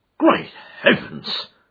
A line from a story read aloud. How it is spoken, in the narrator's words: cried the inspector